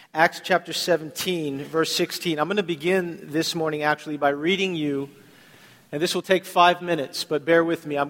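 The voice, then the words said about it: Slightly off, coughy voice. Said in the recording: “my voice is a little off today, so bear with me if I have to cough quite a bit”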